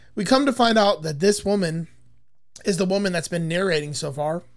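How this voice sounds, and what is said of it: Strained voice with coughing. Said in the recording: “I'm coughing a lot tonight, guys. My voice is not doing it right.”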